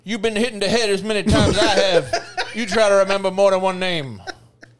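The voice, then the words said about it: George Foreman impression. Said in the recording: “good Joe Fro impression ... Sounds like a guy's been hitting the fucking head 1,000 times.”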